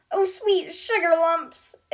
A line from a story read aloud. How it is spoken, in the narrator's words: exclaims Hallie